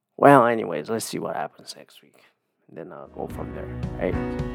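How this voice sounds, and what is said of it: Quiet, strained voice. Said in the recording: “doing my quiet voice because my voice hurts”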